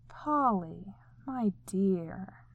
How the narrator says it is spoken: he drawled with what seemed like infinite patience, the infinite patience of someone who's about to crack

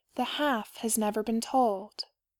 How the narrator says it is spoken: she said

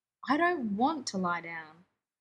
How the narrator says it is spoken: Blair replied irritably

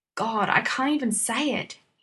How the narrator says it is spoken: he muttered, his voice loud in the stairwell

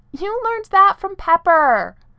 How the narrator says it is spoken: yelled

